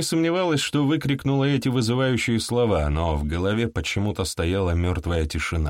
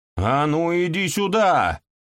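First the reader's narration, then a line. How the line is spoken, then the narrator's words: Yelling. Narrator (Russian): заорала заводь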